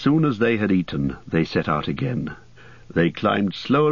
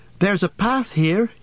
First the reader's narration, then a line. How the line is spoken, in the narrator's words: cried